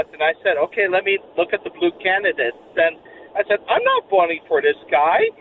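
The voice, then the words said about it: Slight accent. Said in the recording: “I detect a little bit of an accent”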